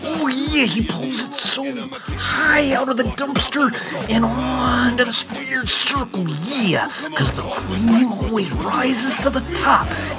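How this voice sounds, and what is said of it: Bad Macho Man impression. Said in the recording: “that bad Macho Man impersonation”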